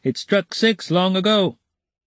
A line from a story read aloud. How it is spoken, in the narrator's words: someone suddenly shout in the yard